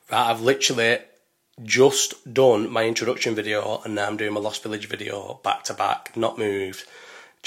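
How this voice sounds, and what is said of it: Strained, worn-out voice. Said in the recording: “my voice is like this is because of Lost Village Festival. My voice is fucking absolutely fucked ... the longer it went on, the more I could feel my, like me having to try”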